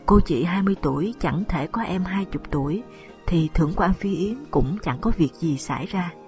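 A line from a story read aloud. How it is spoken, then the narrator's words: Laughing speech. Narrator (Vietnamese): Lục Tiểu Phụng vừa cười vừa nói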